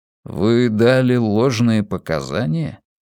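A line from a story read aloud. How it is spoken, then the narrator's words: Gloomy question. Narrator (Russian): мрачно спросил волк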